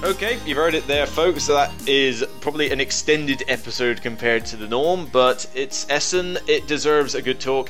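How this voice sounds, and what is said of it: Somerset English accent. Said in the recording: “the sound of my Somerset accent”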